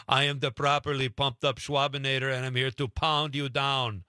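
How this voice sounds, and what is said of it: Arnold Schwarzenegger Austrian accent impression. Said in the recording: “You would speak in an Arnold Schwarzenegger Austrian accent.”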